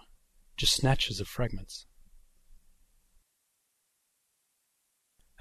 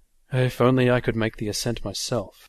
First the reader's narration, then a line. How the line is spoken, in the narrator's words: he sighed